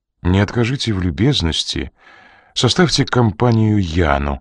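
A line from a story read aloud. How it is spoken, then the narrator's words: Calm voice. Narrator (Russian): произнес Ренли спокойным голосом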